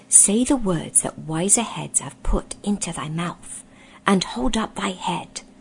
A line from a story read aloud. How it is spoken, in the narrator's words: said Rishta Tarkan in a low voice